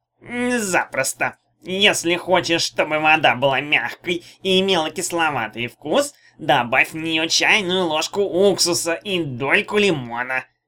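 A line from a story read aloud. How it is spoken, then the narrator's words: Creaky medallion voice. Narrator (Russian): проскрипел медальон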